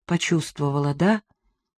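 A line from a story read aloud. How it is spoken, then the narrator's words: Quiet question from behind. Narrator (Russian): тихо спросил Иван за моей спиной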